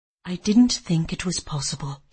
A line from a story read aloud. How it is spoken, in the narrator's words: he said in a low voice